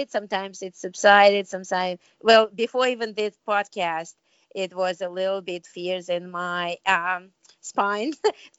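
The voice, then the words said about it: Non-native English accent. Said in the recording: “people will not understand what I want to say or laugh at my accent”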